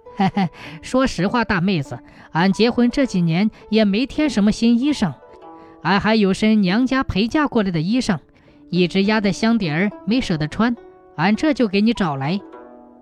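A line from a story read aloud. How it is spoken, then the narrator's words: Bashful, smiling. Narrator (Chinese): 韩腊梅脸一红，笑了笑说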